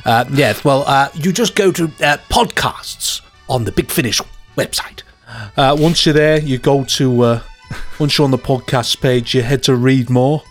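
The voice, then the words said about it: Imitates another person's voice, badly. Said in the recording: “I'm doing some terrible impression of him”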